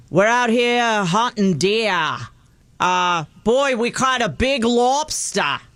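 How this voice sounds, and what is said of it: Put-on Maine accent. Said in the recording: “the yes. Maine accent.”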